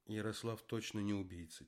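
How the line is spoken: Quiet. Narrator (Russian): тихо сказала Галина Ивановна

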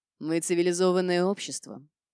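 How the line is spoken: Scoffing grunt. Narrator (Russian): хмыкнул Альфа

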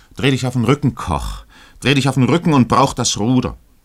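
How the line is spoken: Captain calling out. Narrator (German): rief der Kapitän ihm zu

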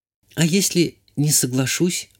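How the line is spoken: Timid young woman asking. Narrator (Russian): робко спросила девушка

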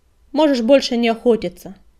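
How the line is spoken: Barked. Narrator (Russian): рявкнул коготь

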